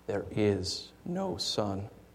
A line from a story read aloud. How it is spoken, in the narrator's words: She repeated in a softer and deeper voice